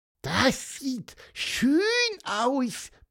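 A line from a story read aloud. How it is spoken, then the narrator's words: Squeaky peep. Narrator (German): piepste Pieper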